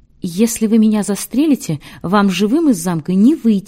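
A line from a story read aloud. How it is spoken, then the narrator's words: Quick. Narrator (Russian): быстро сказал магнат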